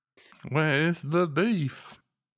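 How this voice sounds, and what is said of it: Imitates another person's voice. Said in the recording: “that your Tim Cook impression?”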